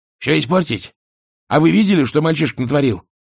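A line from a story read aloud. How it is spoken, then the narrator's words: Snapping back. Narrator (Russian): огрызнулся Альберт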